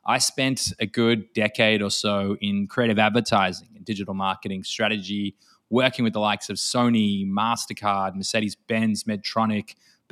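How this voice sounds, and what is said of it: Australian accent. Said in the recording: “my accent being Australian”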